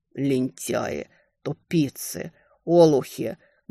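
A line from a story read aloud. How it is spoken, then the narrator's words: Muffled, through teeth. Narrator (Russian): глухо цедил слова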